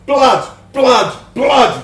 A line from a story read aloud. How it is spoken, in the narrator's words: we howled